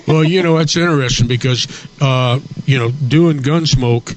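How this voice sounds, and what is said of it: Usual voice. Nothing is said of it.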